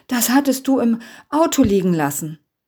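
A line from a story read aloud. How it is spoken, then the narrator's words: Panting. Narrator (German): keuchte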